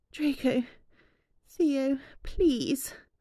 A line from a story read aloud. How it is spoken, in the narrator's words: Hermione moaned softly